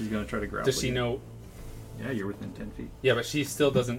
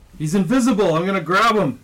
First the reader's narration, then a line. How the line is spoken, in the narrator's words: Yells out